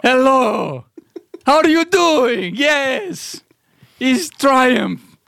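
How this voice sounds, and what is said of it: Puppet character comic voice. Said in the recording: “Everybody can do a Triumph voice.”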